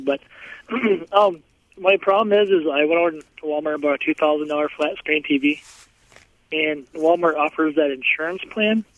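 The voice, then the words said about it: Rough, under-the-weather voice. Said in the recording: “Excuse my voice. I'm kind of coming off the cold.”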